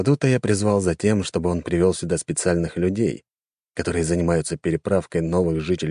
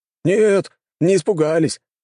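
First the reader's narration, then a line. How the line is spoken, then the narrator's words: Group laughing. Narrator (Russian): рассмеялись люди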